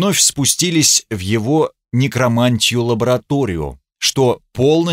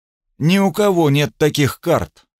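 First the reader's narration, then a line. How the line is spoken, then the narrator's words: Tense voice. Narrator (Russian): сказал напряженным голосом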